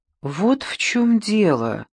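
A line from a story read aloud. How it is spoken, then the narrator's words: Hesitant. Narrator (Russian): неуверенно начала Гэри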